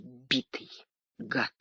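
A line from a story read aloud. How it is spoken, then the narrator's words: Quiet. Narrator (Russian): тихо проговорил Сергей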